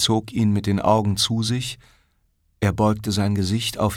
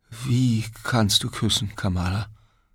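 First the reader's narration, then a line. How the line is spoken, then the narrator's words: Stammering. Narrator (German): stammelte Siddhartha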